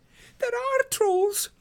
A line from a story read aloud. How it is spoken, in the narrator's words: Pippin panted